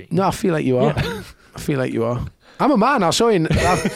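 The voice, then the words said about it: British accent. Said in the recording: “he heard the accent ... the place I'm from in the UK ... he hears my accent”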